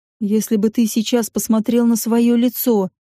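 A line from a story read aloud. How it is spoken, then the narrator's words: Plain. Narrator (Russian): говорит Алик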